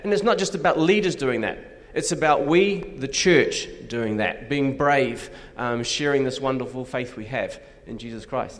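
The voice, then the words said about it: Australian accent. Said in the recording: “as you could tell by his accent, he's not from Chattanooga ... Australia”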